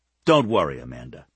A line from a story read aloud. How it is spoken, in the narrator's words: he said bitterly